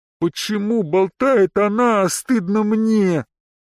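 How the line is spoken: Muffled, low female voice. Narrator (Russian): Глухо произнесла она под смех Арианта и госпожи Кланье

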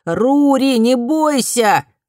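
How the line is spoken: Shout. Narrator (Russian): закричал Фумио

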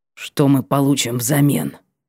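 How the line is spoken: Hoarse voice. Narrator (Russian): раздался, наконец, его хриплый голос

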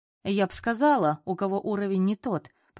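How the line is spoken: Grumbling. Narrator (Russian): проворчала Ира

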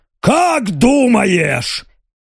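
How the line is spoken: Booming bass shout, imitated voice. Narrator (Russian): Громогласным басом заорала Белочка, неплохо имитируя голос Ноа

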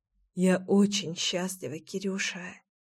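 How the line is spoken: Tender whisper in ear. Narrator (Russian): ласково зашептала Леся мне на ухо

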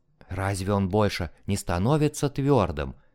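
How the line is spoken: Whispered. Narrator (Russian): прошептала она

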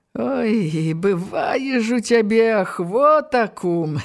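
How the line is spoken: Laughing. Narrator (Belarusian): засмяяўся нарэшце паліцэйскі

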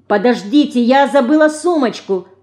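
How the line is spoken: Sudden shout. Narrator (Russian): крикнула вдруг Марина

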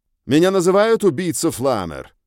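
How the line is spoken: Harsh voice. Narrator (Russian): сказал резким голосом

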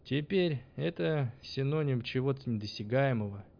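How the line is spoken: Mocking tone, blacksmith. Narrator (Russian): издевательским тоном напомнил ему кузнец

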